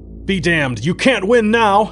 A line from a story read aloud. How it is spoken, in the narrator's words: Alan yelled between blaster shots, almost irrational from the pain that ripped jaggedly through his leg